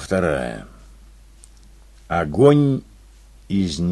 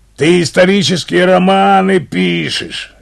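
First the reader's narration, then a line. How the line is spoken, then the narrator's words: Growling. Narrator (Russian): рычал Юренев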